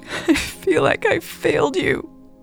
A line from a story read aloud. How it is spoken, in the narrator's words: Elle sobbed louder